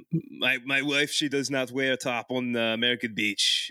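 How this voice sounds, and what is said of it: Mock Quebecois French accent. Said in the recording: “Quebecois ... accent”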